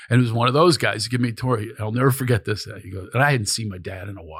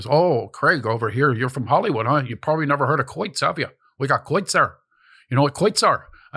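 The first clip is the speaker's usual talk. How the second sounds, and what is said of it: Pennsylvania coal miner accent. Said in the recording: “you ever hear the accent? They do like a Shemokin mm-hmm. coal miner accent from Pennsylvania.”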